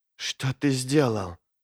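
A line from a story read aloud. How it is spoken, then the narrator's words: Whisper. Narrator (Russian): прошептала она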